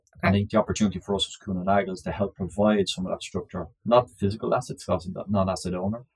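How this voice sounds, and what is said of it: Irish accent. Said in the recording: “I detect an Irish accent. ... For sure.”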